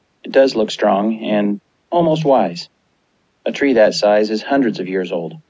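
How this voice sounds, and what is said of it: Calm, even-toned speaking voice. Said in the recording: “in a calm voice”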